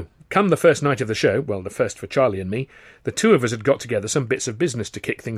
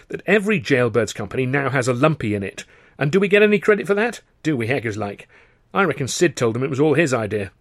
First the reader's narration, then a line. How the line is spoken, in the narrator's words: he said indignantly